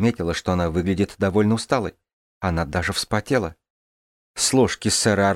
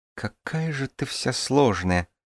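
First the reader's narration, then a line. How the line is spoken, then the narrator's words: Muttered. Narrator (Russian): пробормотала она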